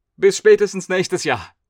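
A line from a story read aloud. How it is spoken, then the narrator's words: Calling out. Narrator (German): rief er noch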